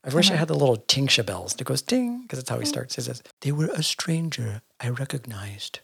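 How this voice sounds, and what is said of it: Usual voice. Nothing is said of it.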